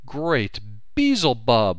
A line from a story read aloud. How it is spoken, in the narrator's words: I cried